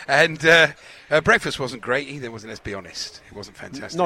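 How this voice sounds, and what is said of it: Usual voice. Nothing is said of it.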